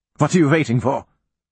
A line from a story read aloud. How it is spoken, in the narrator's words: I barked at the soldiers